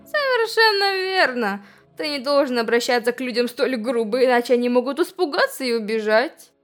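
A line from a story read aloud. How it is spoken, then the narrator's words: Laughing. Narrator (Russian): Смеясь ... другие солдаты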